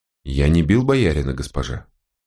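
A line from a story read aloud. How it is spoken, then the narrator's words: Gloomy. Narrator (Russian): мрачно сказал волкодав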